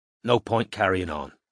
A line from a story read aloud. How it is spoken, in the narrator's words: said Strike quietly